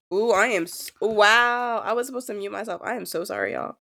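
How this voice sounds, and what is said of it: Hoarse, scratchy sick voice. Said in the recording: “I do have a cold. So excuse my itchy scratch... my sick voice”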